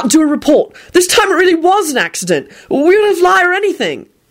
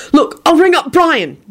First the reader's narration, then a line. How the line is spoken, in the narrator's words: Jamie said desperately